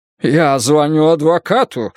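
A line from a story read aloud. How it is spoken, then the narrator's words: Breathless exhale. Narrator (Russian): выдохнул директор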